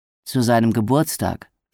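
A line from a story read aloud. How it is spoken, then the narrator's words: Plain. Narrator (German): sagte Nellie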